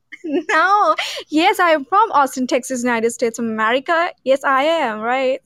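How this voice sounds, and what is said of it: Mixed Texan and English accent. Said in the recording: “That is not an Austin, Texas accent. ... It sounds like half of you is from Austin and the other half of you is from England.”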